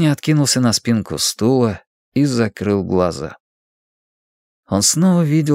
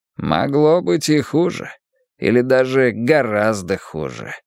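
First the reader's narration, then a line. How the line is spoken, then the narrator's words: Muttered grumble. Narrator (Russian): пробурчал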